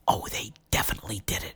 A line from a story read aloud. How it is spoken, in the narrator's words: whispered Jill